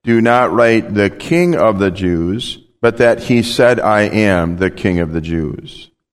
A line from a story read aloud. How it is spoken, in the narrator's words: Pilate answered